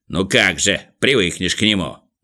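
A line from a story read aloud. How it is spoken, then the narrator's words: Sulky grumble. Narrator (Russian): насупившись, проворчал Ворчун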